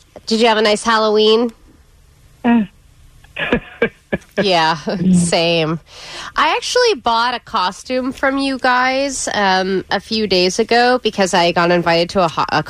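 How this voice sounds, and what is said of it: Exaggerated thick 'Karen' accent. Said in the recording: “lays on her Karen accent thicker than it already is... It is the thickest Karen accent we've ever heard”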